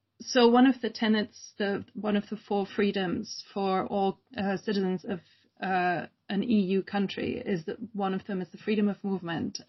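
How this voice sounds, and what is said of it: Mixed German, British and American accent. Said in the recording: “I grew up in Germany, uh, which, you know, my accent, also I want to explain my accent will wave freely between Germany, Britain, and then living with an American. So no guarantees for how I sound.”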